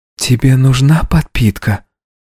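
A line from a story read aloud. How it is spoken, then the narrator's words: Quiet question, lips barely moving. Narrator (Russian): Тихо, практически не размыкая губ, спросила она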